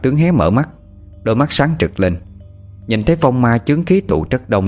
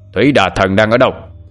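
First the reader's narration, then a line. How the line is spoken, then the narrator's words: Roaring. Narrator (Vietnamese): Thanh Tự lại gầm lên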